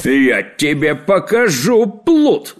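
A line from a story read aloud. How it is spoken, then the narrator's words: Yelled. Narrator (Russian): заорал кавалер Помидор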